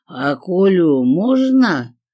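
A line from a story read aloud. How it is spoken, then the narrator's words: Feigned drunken question. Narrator (Russian): наигранно пьяным голосом спросила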